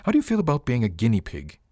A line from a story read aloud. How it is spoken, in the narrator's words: He laughed